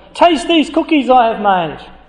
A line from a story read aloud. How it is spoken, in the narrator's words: cried Toad